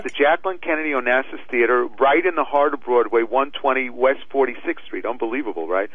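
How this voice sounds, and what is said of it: Worn, hoarse voice from a cold. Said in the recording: “I can hear you powering past your illness, your cold... my voice is a little, you can hear, I'm a little shot.”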